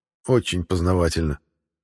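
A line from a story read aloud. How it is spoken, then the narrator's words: Smirking. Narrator (Russian): хмыкнул я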